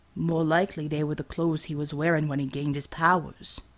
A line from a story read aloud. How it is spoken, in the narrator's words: Motu said in a soft and serious tone